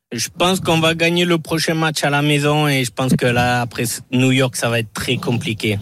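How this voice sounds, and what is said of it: Southwestern French accent. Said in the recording (French): “Cet accent du sud-ouest”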